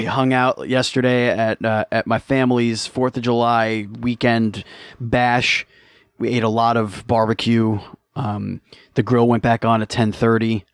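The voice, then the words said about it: Slightly hoarse voice. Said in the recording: “I'm a little hoarse. My voice is a little hoarse. ... It's a little hoarse”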